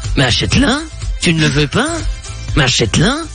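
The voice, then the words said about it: Imitates another person's voice. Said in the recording (French): “ma meilleure imitation, je pense que c'est celle de François Damiens”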